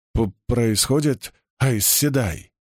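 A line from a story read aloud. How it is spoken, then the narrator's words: Stammering mutter. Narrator (Russian): запинаясь, пробормотал он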